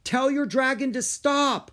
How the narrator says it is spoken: Rory yelled

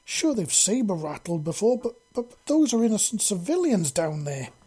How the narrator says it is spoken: Celius exclaimed in a stammering voice

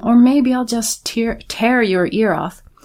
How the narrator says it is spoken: the fellow cried out with unhealthy enthusiasm

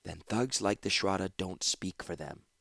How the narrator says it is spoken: said softly

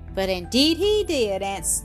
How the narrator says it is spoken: Elsie answered happily

